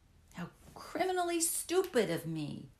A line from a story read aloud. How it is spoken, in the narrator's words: cried